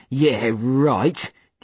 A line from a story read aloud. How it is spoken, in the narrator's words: Jude scoffed